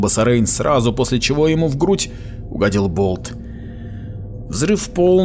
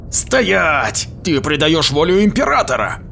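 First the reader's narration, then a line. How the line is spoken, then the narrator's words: Yelling. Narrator (Russian): заорал Сулибан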